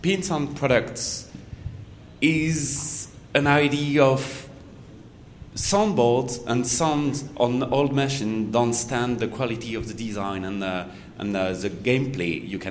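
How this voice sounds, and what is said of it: European accent. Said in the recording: “we'll bother again you with a European accent again”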